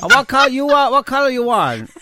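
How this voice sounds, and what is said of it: Put-on East Asian accent. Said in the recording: “do my Korean Chinese voice”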